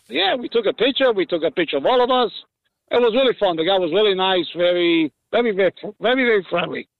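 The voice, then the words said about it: Resembles another person's voice. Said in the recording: “You sound like Jackie Mason ... my Italian accent”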